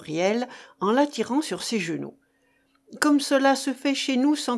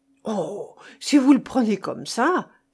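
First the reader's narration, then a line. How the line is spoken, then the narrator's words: Overjoyed exclamation. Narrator (French): s'écria Huriel tout éperdu de joie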